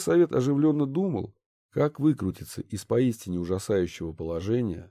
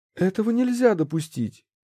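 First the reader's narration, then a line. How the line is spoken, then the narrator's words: Exclamation. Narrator (Russian): воскликнула Ольга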